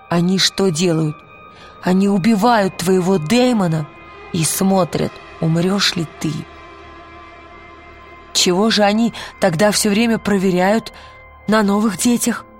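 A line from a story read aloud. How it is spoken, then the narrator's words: Plain. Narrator (Russian): сказал кто-то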